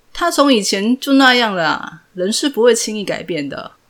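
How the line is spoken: Light chuckle. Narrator (Chinese): 张根源 笑了笑说

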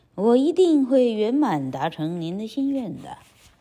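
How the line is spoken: Sly snickering. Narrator (Chinese): 费加罗一边偷笑，一边对瑞吉娜说

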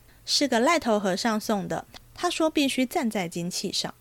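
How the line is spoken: Laughing baby. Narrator (Chinese): 婴儿笑道

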